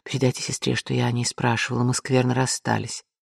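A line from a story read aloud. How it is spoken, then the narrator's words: Whisper in ear. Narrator (Russian): Она успела шепнуть ему на ухо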